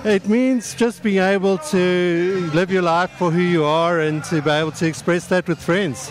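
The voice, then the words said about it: South African accent. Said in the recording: “it's not British and it's not Australian. ... It's South African.”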